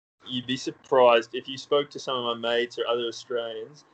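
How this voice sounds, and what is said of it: Mild hybrid American-Australian accent. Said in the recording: “I've got like this weird kind of hybrid accent. I sit right in the middle. It's not even very strong. Like I say some words that are quite American and then some words that are quite Australian ... make fun of me for sounding too American ... they make fun of me for sounding Aussie”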